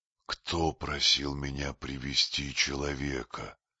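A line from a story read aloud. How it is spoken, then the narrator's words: Hissing. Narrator (Russian): прошипел он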